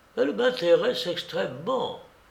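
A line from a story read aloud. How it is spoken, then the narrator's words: Quiet, low voice. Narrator (French): me dit tout bas M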